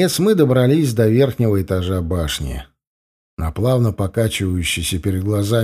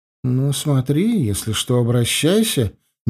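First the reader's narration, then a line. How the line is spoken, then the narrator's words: Slightly offended voice. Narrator (Russian): немного обиженным голосом сказала она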